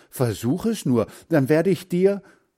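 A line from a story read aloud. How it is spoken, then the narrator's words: Calling out. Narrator (German): rief Hans Frieder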